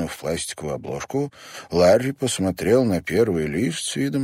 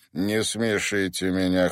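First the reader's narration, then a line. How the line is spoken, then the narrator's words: Cold remark. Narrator (Russian): холодно заметил Стрейкер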